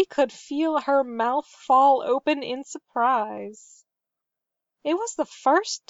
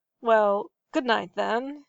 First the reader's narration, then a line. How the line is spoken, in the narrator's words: he muttered